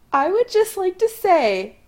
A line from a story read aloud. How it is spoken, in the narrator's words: Allison says, face cherry red from laughing